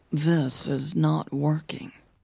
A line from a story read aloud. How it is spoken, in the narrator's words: mumbled to herself